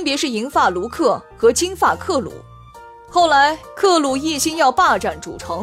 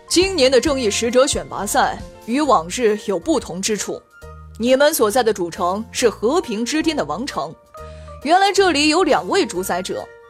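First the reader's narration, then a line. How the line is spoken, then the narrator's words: Low, impatient voice. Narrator (Chinese): 萨利教授终于忍不住了，声音低沉地说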